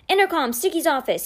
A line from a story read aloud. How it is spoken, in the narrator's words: cried as he ran